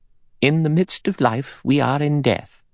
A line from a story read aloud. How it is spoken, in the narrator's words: Emily Brent said in a clear voice